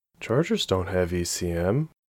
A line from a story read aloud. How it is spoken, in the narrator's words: she mumbled, confused